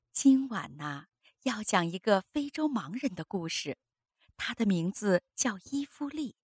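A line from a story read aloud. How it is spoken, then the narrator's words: Soft gentle. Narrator (Chinese): 妈妈柔声说道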